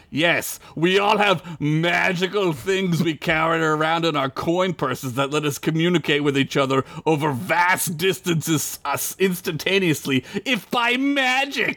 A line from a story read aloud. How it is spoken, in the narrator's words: Alanth said, laughing